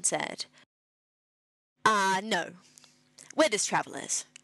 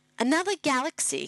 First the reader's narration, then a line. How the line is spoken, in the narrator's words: he said